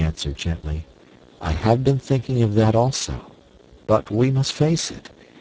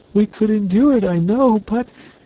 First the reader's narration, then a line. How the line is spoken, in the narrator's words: sobbed